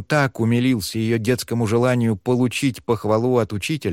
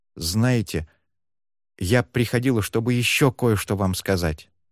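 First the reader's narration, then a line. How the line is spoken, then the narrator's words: Hesitant start. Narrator (Russian): та неуверенно начала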